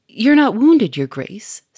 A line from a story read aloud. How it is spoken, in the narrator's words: said Sonia anxiously